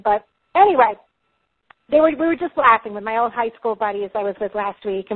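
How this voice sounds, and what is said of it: New York Long Island accent. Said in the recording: “I'm from New York, Long Island originally, if you can't already hear my accent... now I came back with this accent”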